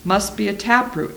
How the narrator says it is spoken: he said

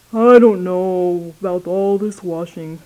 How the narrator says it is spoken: grumbled Eeyore

